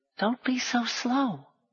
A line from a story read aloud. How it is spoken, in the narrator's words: Gally whispered